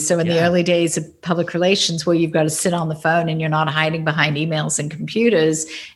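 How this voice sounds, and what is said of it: Australian accent. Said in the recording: “you had that Australian accent, which everybody loves ... oh, you're Australian.”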